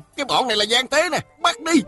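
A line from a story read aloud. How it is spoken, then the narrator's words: Soldiers shouting. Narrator (Vietnamese): Mười mấy tên lính hò hét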